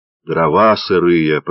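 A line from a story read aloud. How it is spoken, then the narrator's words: Grumbling. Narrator (Russian): пробурчал Федор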